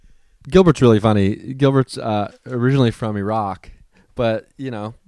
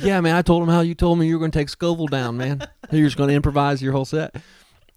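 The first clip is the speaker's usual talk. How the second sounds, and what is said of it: Southern-accented imitation of another person. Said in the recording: “doing a decent impression of Gilbert's voice ... grew up in Georgia his whole life ... Southern, yeah.”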